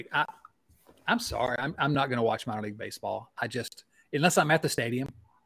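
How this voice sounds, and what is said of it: Strong regional accent. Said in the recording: “my ridiculous accent”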